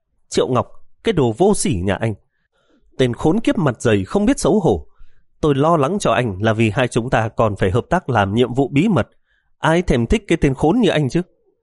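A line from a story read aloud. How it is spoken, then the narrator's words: Stern, gritted voice. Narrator (Vietnamese): Miêu Anh gằn giọng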